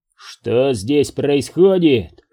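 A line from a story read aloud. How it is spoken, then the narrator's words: Barked. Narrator (Russian): рявкнул он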